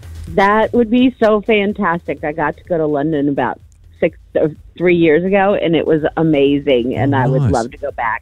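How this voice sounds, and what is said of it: North American accent. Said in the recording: “You've got a beautiful accent ... Are you Canadian? ... I am from the United States of America in Kansas.”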